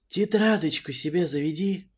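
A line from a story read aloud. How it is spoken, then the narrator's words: Sweet gleeful singsong. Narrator (Russian): Медовым голосом пропел Арчи, просто не в силах сдерживаться от удовольствия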